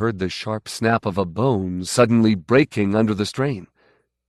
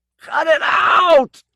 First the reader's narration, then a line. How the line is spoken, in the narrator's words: he cried, his voice shrill with pain